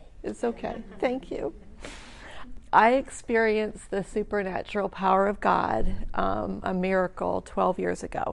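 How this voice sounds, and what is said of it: Teary, emotional voice. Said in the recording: “I didn't realize I was going to get teary, but I am.”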